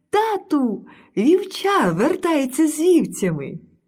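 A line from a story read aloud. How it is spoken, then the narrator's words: Joyful shout. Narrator (Ukrainian): А найменша донька короля глипнула у вікно, уздріла його і радісно крикнула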